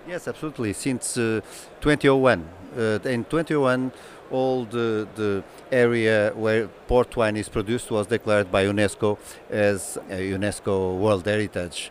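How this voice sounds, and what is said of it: Charming foreign accent. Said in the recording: “you have a charming accent”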